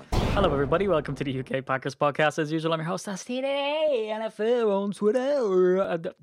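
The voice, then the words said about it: Radio host announcer voice. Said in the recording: “That was a bit radio voice finish there.”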